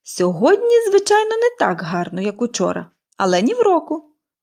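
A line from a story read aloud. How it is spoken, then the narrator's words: Cheerful. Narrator (Ukrainian): весело повідомила Поліанна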